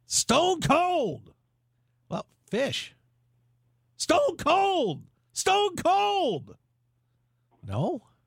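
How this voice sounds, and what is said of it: Jim Ross impression. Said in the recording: “your Jim Ross impersonation”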